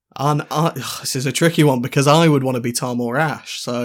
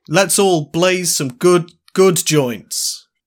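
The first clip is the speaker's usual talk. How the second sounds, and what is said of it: Imitates another person's voice. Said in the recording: “that your impression of me?”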